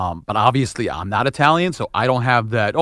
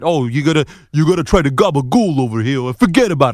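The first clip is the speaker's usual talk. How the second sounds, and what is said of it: Exaggerated Italian New York accent. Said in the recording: “Mostly the heavy Italian accent. That is definitely prevalent in New York accents ... I don't speak like that”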